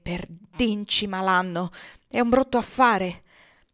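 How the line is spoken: Muttering to himself. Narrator (Italian): Il signor Bird borbottando tra sé

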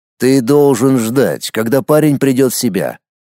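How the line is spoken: Confident. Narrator (Russian): уверенным тоном произнес Воронцов

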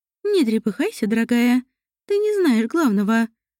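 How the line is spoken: Laughing granny. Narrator (Russian): засмеялась бабуля Глинминель

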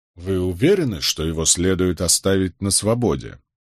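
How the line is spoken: Plain question. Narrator (Russian): спросил я

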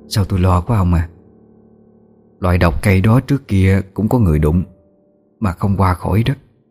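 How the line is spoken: Soft, worried. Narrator (Vietnamese): khẽ nói với chồng

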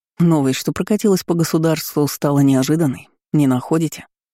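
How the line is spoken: Plain question. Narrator (Russian): спросил маркиз

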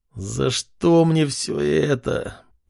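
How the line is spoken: Groaning. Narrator (Russian): простонал парень

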